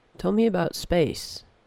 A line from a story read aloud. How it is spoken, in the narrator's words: said Parvo quietly